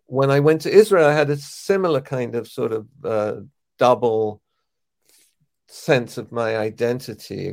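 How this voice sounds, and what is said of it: English accent. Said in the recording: “I was treated very much as an English person because of my accent”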